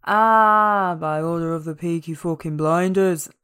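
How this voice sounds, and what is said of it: Passable Brummy accent. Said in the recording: “That is not the best accent, but it's passable. ... It's quite Brummy ... my impression ... it is quite good.”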